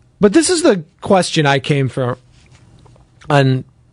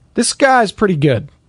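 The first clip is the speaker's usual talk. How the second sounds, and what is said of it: Joe Buck impression. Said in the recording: “That was my Joe Buck impersonation”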